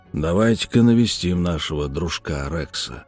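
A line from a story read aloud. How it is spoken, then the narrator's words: Gloomy mutter. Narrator (Russian): мрачно пробурчал он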